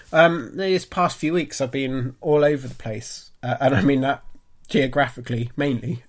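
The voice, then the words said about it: Congested, croaky voice. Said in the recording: “my voice sounds a bit bunged up and croaky. I'm on the tail end of a cold”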